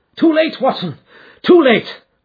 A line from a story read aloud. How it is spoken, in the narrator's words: cried Holmes